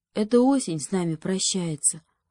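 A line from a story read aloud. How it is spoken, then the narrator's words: Whispered, a hare. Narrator (Russian): прошептал заяц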